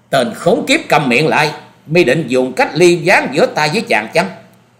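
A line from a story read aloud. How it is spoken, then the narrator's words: Angry shout. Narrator (Vietnamese): Phan Quyên Quyên tức giận quát to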